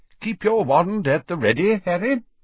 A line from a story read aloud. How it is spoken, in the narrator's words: he said brightly